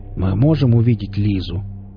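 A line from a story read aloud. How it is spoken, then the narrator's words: Polite question. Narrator (Russian): вежливо спросил Велес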